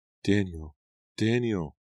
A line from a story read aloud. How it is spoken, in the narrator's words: The faint, faraway cries